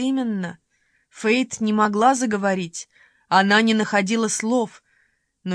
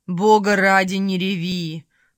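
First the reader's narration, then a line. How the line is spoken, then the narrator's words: Growled. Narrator (Russian): прорычал Норман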